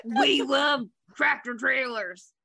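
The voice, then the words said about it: Impression of a tractor-trailer enthusiast. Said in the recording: “that's my impression of somebody who loves tractor trailers.”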